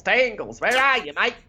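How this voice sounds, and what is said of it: Exaggerated put-on Australian accent. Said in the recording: “Vaguely racist Australian impersonation there.”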